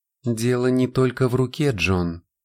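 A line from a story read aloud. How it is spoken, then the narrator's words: Soft. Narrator (Russian): мягко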